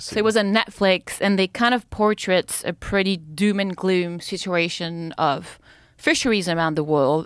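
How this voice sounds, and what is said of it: French-accented English. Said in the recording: “you have a French accent”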